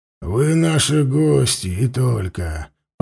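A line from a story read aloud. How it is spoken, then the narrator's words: Growled. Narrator (Russian): прорычал он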